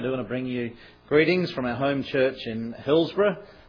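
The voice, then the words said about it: Irish brogue accent. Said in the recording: “as you can tell by the brogue, I'm not originally from Hillsborough ... Those folks from Hillsborough have a queer brogue.”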